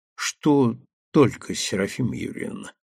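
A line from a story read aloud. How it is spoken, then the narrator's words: Quiet question. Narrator (Russian): так же тихо спросил парень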